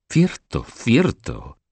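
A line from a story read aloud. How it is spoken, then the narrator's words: Exclaimed. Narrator (Spanish): exclamó Luis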